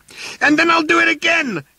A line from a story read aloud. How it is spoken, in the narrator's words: yelled Arthur